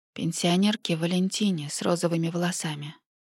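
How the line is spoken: Sleepy mumble. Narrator (Russian): пробормотала я, проваливаясь в сон

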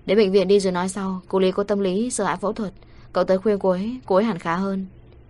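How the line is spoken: Familiar voice on phone. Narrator (Vietnamese): vang lên giọng nói quen thuộc

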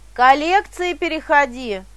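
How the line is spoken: Joyful crowd clamor. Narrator (Russian): Все люди радостно шумели

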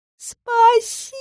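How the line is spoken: Thin squeaky voice. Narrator (Russian): Тоненьким голоском пропищал один из оборотней

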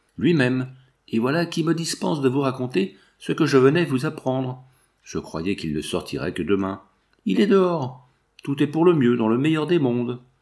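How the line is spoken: Exclaiming. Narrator (French): s'écria Skaer

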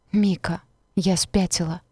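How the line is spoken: Whispered. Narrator (Russian): прошептала я

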